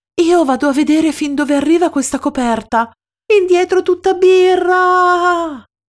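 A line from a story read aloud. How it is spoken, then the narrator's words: Yelled. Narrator (Italian): urla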